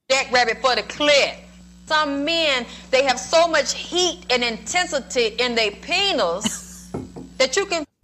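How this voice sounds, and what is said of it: Old-money Southern drawl. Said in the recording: “she's got a very old Southern drawl ... there is old Southern money, and that's a different kind of drawl ... this lady is an old Southern draw”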